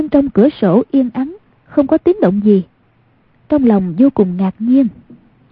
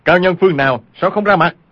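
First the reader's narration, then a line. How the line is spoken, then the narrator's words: Frightened, angry shout. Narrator (Vietnamese): vừa sợ vừa giận, y quát lên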